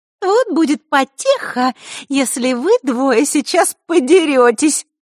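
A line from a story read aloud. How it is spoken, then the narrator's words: Sugary sweet voice. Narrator (Russian): проговорила она сладким голоском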